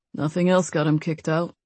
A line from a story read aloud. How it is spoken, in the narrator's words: Nate mumbled